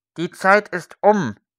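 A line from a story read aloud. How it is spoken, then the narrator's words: Indistinct voice. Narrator (German): sagte mit undeutlicher Stimme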